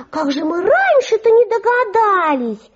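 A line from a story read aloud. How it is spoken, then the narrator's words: Exclaiming in chorus. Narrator (Russian): все хором воскликнули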